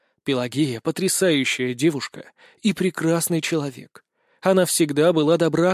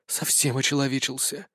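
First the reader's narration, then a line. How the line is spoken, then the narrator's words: Reproachful whisper. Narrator (Russian): с укором прошептала темная сторона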